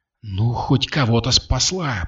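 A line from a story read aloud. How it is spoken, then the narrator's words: Grumbling. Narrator (Russian): проворчала Катя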